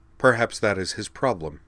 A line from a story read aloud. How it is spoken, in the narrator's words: Mia replied